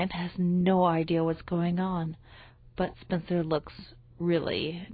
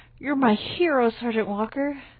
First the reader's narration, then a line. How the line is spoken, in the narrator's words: sighing